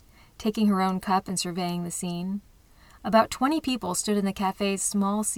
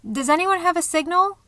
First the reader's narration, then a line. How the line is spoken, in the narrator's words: a worried voice called out